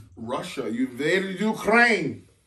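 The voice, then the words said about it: Put-on Russian or Ukrainian accent. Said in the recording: “I don't know if that's a Russian accent or a Ukrainian accent, because they kind of sound the same”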